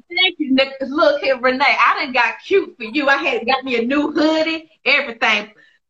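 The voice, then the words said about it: Southern American accent. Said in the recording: “I love that Southern accent”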